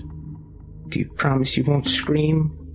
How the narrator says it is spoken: Charlie whimpered

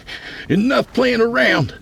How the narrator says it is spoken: he cried

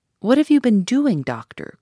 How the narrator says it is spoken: cried Mrs

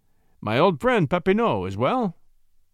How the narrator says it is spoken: he asked

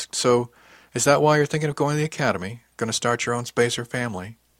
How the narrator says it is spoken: The way she said it

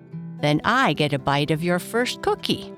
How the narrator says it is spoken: Papa said, laughing

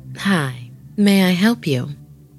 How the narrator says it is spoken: said as calmly as possible

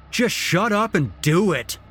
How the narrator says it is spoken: Oberstrom yelled

